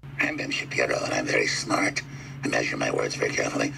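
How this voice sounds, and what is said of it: Imitates another person's voice. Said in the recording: “did an impression of me on his show ... Alex Jones doing his Ben Shapiro impersonation”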